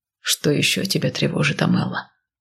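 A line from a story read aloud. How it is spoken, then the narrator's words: Quiet question. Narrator (Russian): тихо спросил Кайл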